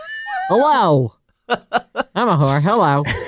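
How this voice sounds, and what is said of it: Imitates another person's voice. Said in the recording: “That's my Snooki impersonation.”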